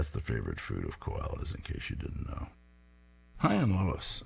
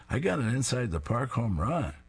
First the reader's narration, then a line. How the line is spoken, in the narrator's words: exclaims